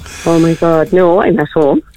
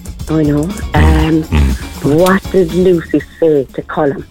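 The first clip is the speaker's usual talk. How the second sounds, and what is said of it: Whispering. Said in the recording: “Why are you whispering now?”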